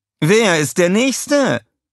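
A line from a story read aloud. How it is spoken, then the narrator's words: Calling out. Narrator (German): rief Scarlett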